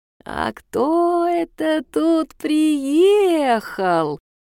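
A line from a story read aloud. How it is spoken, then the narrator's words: Sing-song. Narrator (Russian): нараспев произносит она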